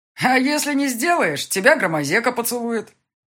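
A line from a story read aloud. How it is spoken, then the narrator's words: Shouted joke. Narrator (Russian): крикнул кто-то из парней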